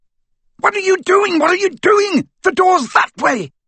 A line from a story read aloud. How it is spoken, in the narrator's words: screamed Malfoy